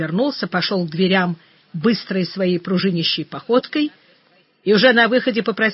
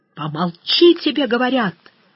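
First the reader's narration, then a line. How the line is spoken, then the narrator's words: Yell dropping to whisper. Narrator (Russian): заорал Жеглов и сразу перешел почти на шепот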